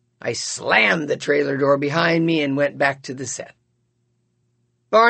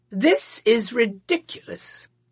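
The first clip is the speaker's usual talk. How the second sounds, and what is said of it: Haughty, superior tone. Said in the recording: “in my haughtiest voice”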